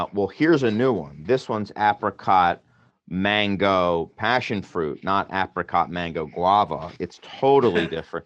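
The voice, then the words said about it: Sarcastic delivery. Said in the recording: “as I'm being sarcastic”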